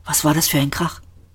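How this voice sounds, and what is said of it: Whispered line. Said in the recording (German): “Flüsterte”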